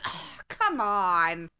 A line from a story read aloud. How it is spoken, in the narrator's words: Alia moaned